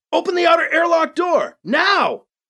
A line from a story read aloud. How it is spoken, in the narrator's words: He yelled